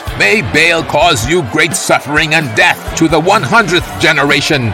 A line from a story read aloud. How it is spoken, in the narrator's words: Matan shouted